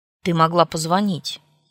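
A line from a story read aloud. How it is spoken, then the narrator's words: Rude. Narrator (Russian): грубо ответил он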